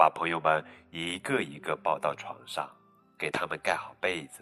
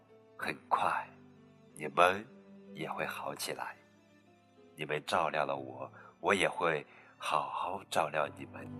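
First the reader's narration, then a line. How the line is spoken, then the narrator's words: Gentle. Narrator (Chinese): 他温柔地对大家说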